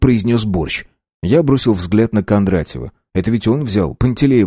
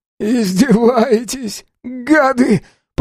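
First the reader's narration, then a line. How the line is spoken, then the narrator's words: Moaning. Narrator (Russian): простонал Борщ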